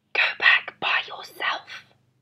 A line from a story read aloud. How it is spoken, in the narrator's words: whispered in my ear